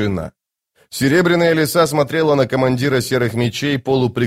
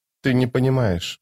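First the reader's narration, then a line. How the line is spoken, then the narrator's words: Whisper. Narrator (Russian): наконец прошептала она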